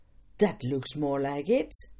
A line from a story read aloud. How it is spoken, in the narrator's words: He laughed loudly and said